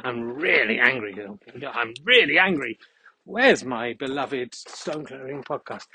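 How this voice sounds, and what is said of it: Exaggerated angry voice. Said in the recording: “read it in a more angry voice”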